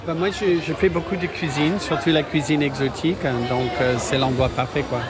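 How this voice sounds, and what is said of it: Slight American accent speaking French. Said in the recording (French): “je reconnais un petit accent ... Mais je suis américain”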